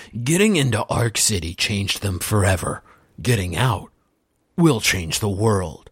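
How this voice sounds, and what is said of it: Dramatic movie-trailer narrator voice. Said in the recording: “let me do that in my trailer voice.”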